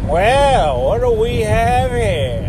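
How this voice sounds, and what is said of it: Put-on Southern accent. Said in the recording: “let me do a southern voice. I don't know, I kind of went southern”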